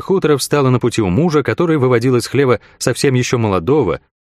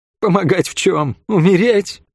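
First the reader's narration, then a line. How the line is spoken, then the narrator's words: Bitter laugh. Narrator (Russian): горько рассмеялась Хлоя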